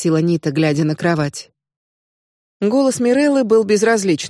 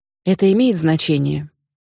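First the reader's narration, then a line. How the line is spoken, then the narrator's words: Sigh. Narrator (Russian): Нита вздохнула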